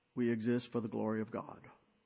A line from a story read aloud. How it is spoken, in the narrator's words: Charlene said in a flat, monotone voice